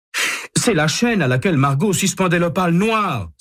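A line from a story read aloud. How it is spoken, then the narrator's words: Exclaiming. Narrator (French): s'écrie-t-il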